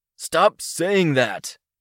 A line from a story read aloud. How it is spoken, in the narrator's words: called out